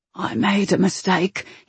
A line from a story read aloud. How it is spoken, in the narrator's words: he said, so softly it was almost carried away on the wind